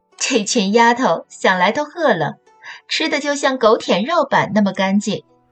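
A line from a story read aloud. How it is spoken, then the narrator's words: Laughing. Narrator (Chinese): 她笑着说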